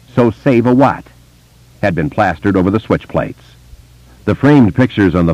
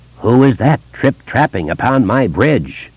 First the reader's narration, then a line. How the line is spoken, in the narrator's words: said in the low, growling tones of the troll